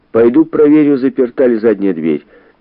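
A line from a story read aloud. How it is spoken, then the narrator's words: Shouted. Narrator (Russian): крикнул ей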